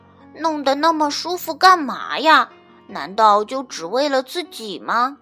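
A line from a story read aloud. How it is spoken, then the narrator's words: Mumbling, grumbling. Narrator (Chinese): 他一边干活一边嘟嘟囔囔地说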